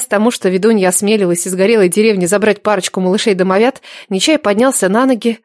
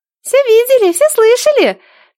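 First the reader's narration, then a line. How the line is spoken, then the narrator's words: Squeaky girlish voice. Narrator (Russian): пискнул девчоночий голосочек у Нелады в косе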